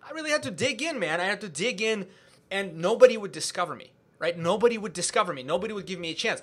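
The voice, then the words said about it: Non-native English accent. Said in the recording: “I didn't even speak English before I was 16 years old. So when I come here, people laugh at my accent.”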